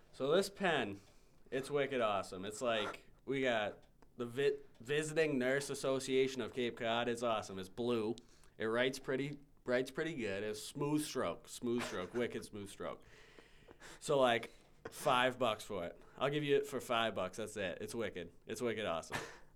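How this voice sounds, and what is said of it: Put-on Boston accent. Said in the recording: “I believe I have a solid Boston accent. ... Sell me this pen in your Boston accent.”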